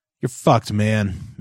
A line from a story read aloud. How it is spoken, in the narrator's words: Matthew said bitterly